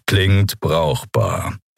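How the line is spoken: Growled. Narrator (German): knurrte Keru

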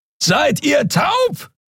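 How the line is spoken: Roaring across great distance. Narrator (German): brüllte Keru von der anderen Seite des Portals über die Kluft zwischen zwei Planeten hinweg

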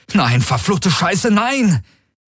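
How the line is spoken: Calling out. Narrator (German): rief er

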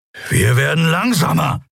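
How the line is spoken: Hissed. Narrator (German): fauchte Kero

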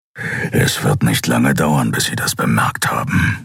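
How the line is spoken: Growled. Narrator (German): knurrte Keru

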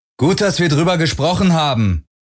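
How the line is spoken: Call after someone. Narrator (German): rief Parker Galen nach

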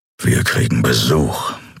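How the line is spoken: Growled. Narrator (German): knurrte er

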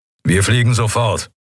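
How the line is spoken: Growled. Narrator (German): knurrte er

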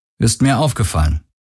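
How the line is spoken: Plain. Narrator (German): sagte Garland

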